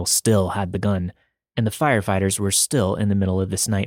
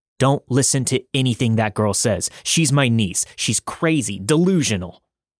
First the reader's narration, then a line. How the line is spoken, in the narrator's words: Daryl yelled